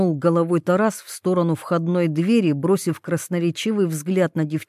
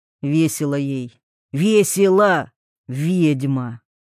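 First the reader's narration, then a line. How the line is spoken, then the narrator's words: Angry exhaled words. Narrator (Russian): Зло выдохнул Вольных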